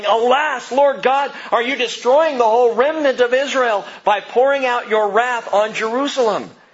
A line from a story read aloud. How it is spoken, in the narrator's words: cried out saying